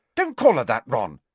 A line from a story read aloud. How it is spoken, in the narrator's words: snapped Ginny